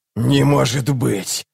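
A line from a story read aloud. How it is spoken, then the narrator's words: Hissing doll. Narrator (Russian): прошипела кукла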